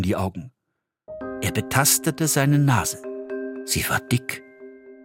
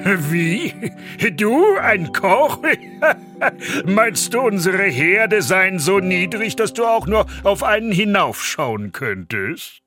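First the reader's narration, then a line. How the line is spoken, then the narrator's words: Loud laughter, calling. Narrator (German): Der Oberküchenmeister brach in lautes Lachen aus und rief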